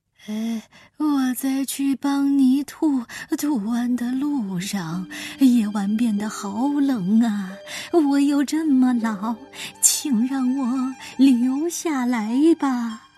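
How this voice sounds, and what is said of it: Weak, feeble old voice. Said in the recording (Chinese): “弯着腰，用有气无力的声音说道”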